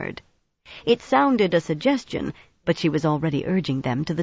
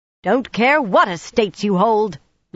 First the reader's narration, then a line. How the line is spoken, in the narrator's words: Nynaeve was shouting